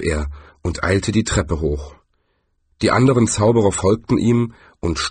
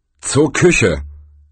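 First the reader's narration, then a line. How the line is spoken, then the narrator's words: Thundering. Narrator (German): donnerte er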